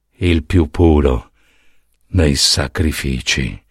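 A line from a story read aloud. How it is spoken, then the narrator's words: Whispered. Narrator (Italian): Poseidone sussurrò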